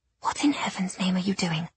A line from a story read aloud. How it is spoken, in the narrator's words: I whispered